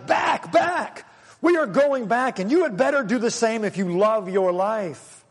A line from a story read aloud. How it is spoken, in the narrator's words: They shouted